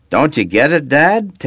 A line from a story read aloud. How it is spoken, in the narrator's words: Taylor blurted out